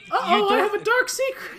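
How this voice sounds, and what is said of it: Failed Mickey Mouse impression. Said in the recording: “You don't sound like Mickey Mouse. You sound like Astrid doing an impression of Hiccup from How to Train Your Dragon ... you sound like you're doing an impression of a person doing an impression.”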